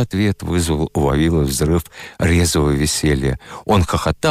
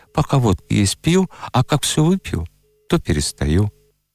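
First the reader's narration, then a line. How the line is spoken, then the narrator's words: Calm reply. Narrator (Russian): Бывалый человек спокойно ответил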